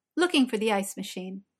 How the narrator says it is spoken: Martha said quickly

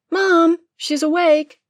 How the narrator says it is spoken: The twin yelled through an open door

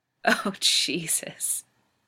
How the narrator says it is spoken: Rodney moans

